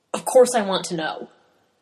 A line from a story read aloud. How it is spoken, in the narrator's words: he says gruffly